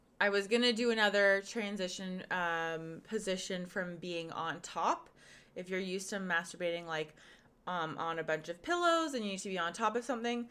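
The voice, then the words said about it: Hoarse, fading voice. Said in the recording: “I'm losing my voice today ... I am losing my voice”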